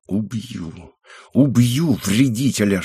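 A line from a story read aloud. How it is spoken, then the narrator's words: Woman's whisper. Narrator (Russian): шептала женщина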